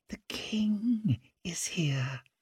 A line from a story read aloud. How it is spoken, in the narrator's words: whispered Isolde